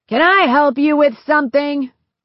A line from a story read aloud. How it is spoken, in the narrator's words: a man yelled from the doorframe